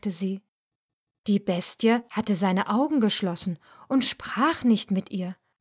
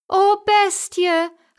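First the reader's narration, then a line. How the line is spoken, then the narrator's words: Called out. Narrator (German): rief die Schöne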